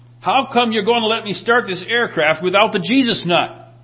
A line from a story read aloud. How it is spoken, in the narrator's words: in a panic, he yelled